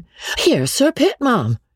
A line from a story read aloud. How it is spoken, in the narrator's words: Rebecca crying out in an alarmed tone